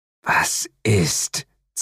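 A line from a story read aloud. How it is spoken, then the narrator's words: Hissing. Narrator (German): zischte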